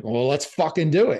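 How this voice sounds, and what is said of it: Poor put-on Scottish accent. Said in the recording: “that's a horrible Scottish accent”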